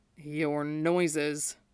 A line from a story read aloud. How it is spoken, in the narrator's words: Ulaz murmured, low and eager